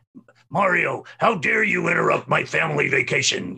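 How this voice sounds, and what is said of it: Imitates another person's voice. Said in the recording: “I thought they wanted a voice match. So I did my best Scott Burns, you know, impersonation of the lines from Sunshine”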